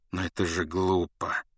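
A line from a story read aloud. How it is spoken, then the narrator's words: Gentle. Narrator (Russian): заметил люпин мягко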